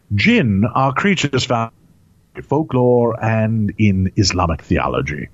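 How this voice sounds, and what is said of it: Hoity posh accent. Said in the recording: “with my teeth in ... I suddenly have a hoity accent”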